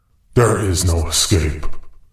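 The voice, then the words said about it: Big scary narrator voice. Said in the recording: “your big, scary narrator voice ... Mr. Scary Voice.”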